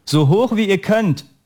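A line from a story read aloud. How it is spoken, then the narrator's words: Coach calls out. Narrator (German): rief der Trainer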